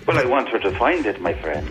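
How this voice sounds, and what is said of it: Irish-sounding accent. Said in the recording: “you sound Irish there”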